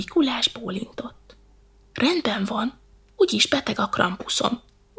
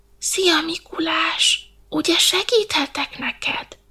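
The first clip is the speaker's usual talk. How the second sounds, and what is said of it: Whispered line. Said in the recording (Hungarian): “suttogta”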